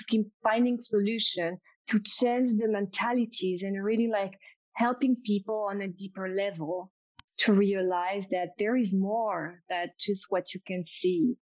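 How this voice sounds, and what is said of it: French accent. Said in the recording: “my, my French accent”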